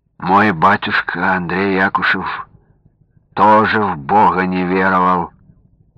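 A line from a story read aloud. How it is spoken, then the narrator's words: Reproachful sigh. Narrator (Russian): укоризненно вздохнул Сергей Андреевич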